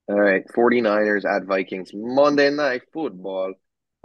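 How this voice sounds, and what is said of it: Poor imitation of Spanish sports announcer. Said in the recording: “that was a terrible uh, impersonation ... the Spanish announcer”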